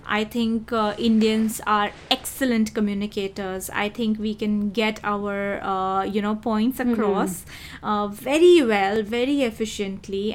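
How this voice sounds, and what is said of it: Indian English accent. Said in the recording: “I love my Indian accent”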